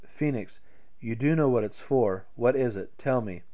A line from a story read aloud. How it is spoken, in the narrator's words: A vague dread swept through him, and he faltered